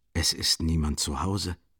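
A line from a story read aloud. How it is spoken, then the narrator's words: Quiet and emphatic. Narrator (German): sagte er leise und mit Nachdruck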